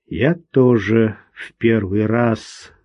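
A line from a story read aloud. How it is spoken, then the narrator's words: Muffled mutter. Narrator (Russian): глухо пробормотал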